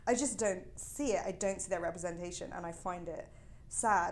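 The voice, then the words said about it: Privileged, upper-class sounding accent. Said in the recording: “I'm from a very privileged background, which you can tell from my voice.”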